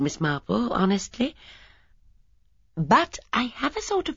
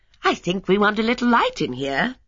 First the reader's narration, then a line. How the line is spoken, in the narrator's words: she said brightly